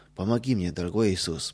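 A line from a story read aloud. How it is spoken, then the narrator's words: Whispered. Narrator (Russian): прошептал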